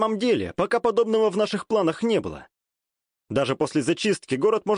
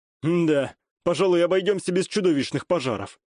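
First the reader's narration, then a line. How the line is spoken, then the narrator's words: Wry chuckle. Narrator (Russian): хмыкнул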